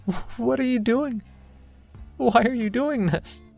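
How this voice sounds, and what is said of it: Tearful, crying voice. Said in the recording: “I could hear the tears in her voice.”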